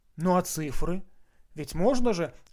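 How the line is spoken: Deep, reasoning voice. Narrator (Russian): сказал, но уже басом, рассудительно

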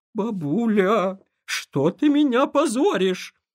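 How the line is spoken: Pleading. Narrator (Russian): взмолился Мямлик

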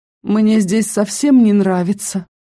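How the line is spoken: Moaning. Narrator (Russian): простонала Марла

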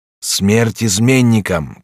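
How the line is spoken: Mob shouting. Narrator (Russian): кричала чернь

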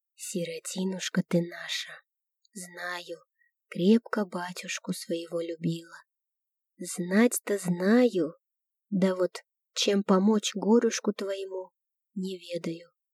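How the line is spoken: Sympathetic whisper. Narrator (Russian): Управляющий с искренним сочувствием прошептал

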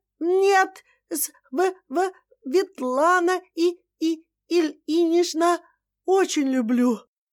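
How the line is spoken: Stammering. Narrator (Russian): Заикаясь, произнесла Маша

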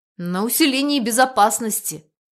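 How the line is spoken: Grumbled. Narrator (Russian): проворчал Живолгин

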